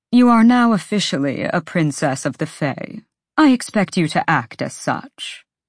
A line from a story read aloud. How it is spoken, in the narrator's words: said blandly